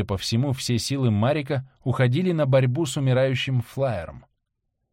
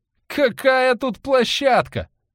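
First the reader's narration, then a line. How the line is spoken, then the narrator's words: Yelling. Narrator (Russian): завопил Валентин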